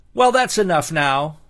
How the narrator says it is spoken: added Seriosha with a forced laugh

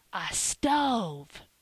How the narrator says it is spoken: Phronsie whispered in the doctor's ear

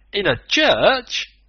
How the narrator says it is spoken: The Canadian exclaimed

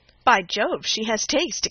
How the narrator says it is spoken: exclaimed Henry Lynn

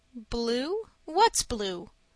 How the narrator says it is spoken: snapped Miss Snodgrass

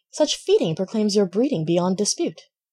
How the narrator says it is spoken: The country cousin exclaimed

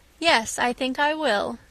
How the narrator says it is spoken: said Miss Stacy

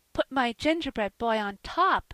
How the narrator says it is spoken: cried Phronsie

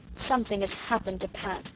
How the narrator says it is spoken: the Story Girl declared miserably

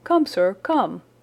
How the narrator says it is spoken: cried Franklin, rushing upstairs

